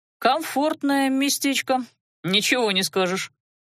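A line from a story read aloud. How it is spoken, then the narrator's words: Snort. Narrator (Russian): хмыкнул Адар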